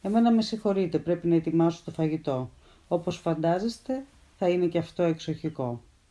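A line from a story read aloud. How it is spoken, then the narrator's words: Unsmiling, serious. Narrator (Greek): δεν γέλασε καθόλου και μας άφησε λέγοντας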